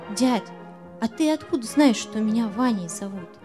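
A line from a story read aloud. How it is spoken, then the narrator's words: Quiet question. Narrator (Russian): тихо так спрашивает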